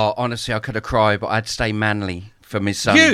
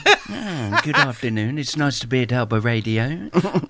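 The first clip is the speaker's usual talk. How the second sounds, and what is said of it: Frank Spencer impression. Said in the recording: “Can you do it as Frank Spencer would say it? ... Do the voice. ... I'm doing the voice now”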